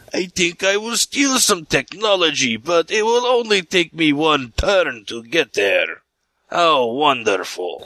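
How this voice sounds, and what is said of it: Imitated KGB agent voice. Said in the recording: “my impersonation of a KGB agent ... it wasn't that bad. You improved.”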